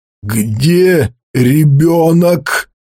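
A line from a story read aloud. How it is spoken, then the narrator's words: Hollow, strange voice. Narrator (Russian): спросил он глухим и совершенно чужим голосом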